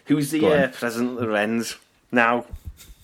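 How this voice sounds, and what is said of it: Put-on Scouse accent. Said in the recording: “I'll try and do a Scouse accent”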